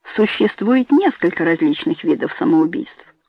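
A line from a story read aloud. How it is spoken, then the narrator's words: Confident tone. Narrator (Russian): уверенным тоном начал он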